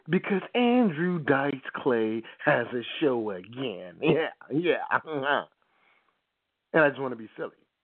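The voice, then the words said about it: Put-on New Jersey/New York accent. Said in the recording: “I'm doing this in my Jersey, New York accent.”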